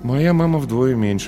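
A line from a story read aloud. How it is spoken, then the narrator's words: Sigh. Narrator (Russian): вздохнул Паша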